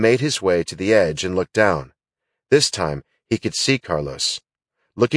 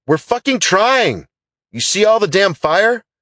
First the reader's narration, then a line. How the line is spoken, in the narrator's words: Carlos shouted back